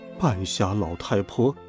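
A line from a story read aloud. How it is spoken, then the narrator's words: Muttering under breath. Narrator (Chinese): 小仙奶奶 压低嗓门自言自语的嘀咕道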